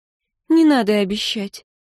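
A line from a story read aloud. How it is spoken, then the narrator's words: Sad wry chuckle. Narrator (Russian): Синтия грустно усмехнулась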